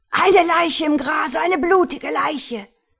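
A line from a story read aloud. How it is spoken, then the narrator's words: Screaming. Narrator (German): Lord Galloway schrie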